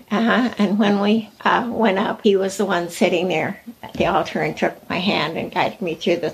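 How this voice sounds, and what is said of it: Teary, emotional voice. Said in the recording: “I can tell you're getting a little teary.”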